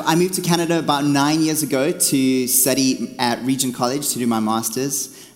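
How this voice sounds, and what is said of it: South African accent. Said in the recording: “I come from South Africa. That's why I have a funny accent. And no, I'm not Australian”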